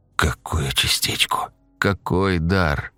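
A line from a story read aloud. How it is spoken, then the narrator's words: Strained, muffled words. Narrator (Russian): Сглатывая и прикрывая рукой рот, выдавила из себя Диана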